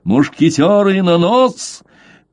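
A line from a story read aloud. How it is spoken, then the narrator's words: Thunderous shout. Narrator (Russian): Блад закричал громовым голосом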